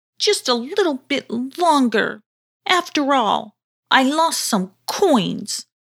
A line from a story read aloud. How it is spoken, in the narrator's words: whimpered back Sulky